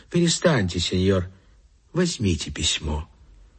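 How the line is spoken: Quiet, cheerful lady. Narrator (Russian): Дама была снисходительней, стала веселее, тихо сказала кавалеру

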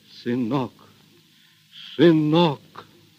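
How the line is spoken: Choked, repeating. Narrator (Russian): Григорий сдавленным голосом твердил только одно слово

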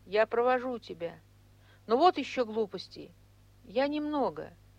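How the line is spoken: Very timid. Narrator (Russian): очень робко сказал

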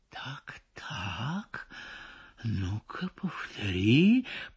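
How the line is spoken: Very quiet. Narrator (Russian): произносит, но так тихо

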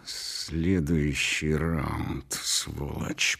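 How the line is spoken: Hiss into ear. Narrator (Russian): прошипел он мне в ухо

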